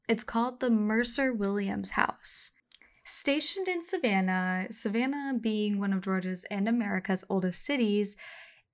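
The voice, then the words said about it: Spooky storytelling voice. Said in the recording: “I'm going to switch over to my spooky voice”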